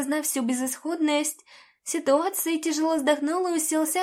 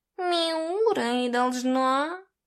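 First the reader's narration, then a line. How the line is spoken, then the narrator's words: Displeased grumble. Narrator (Russian): Недовольно пробурчал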